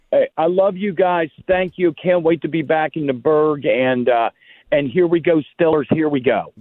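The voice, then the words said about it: Pittsburgh accent. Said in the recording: “A true Yinzer. The accent is still very much there.”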